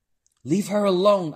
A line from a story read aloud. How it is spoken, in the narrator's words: I yelled